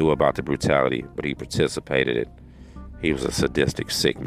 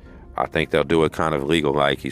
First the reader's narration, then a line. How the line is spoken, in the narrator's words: he said in a shaky voice